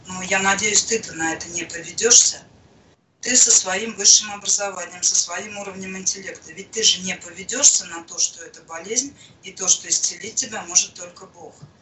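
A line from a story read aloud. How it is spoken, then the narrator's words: Timid speech. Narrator (Russian): Он очень робко сказал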